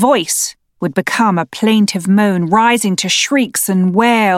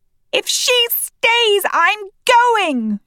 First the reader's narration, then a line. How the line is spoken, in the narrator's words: shout